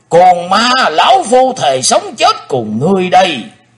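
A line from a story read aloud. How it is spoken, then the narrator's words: Frantic loud roar. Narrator (Vietnamese): Tử Diện Côn Luân nóng như lửa đốt, hắn gầm to lên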